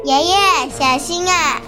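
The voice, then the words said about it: Worried shout of a child. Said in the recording (Chinese): “凯尔担心的大喊”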